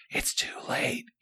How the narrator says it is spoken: whispered

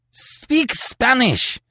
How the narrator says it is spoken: cried Terry passionately

